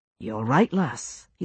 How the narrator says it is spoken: he said quietly

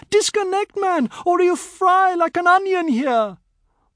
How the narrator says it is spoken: Shahid, who didn't have the courage to touch this impossible being, screamed

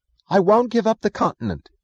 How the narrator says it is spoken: said Wesley Mooch, his voice hurt and stubborn

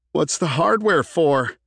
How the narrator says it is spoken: He punctuated the question with a nervous laugh

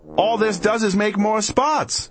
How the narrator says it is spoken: we yelled at the cat

